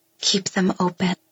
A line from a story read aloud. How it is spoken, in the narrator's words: I whisper